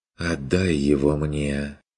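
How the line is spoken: Ingratiating young woman's request. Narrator (Russian): Вкрадчиво попросила молчавшая до сих пор девица

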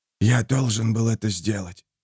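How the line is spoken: Whispered. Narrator (Russian): прошептал Клюгер

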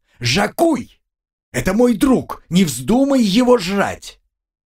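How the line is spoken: Sudden yell. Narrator (Russian): опомнившийся Артем заорал

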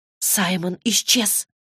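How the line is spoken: Whisper. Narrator (Russian): прошептала она

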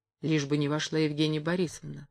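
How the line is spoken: Undertone. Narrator (Russian): сказал он вполголоса

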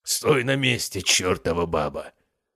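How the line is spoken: Angry growl. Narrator (Russian): рычал Максимус

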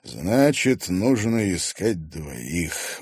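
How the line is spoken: Tired sheriff. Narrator (Russian): устало произнес шериф

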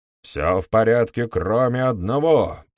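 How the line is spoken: Roar. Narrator (Russian): проревел он

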